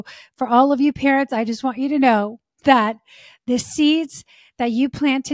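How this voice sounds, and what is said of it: Usual voice. Nothing is said of it.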